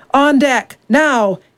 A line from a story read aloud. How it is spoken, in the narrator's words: he bellowed